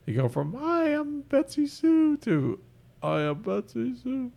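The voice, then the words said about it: Imitates a woman's voice. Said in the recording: “Great impersonation of a woman. ... That was horrible.”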